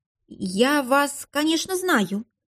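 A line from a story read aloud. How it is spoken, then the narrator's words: Embarrassed, frightened muttering. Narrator (Russian): смущенно и даже немного испуганно пробормотала Надежда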